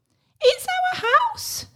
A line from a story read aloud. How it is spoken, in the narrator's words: squeaked the mother mouse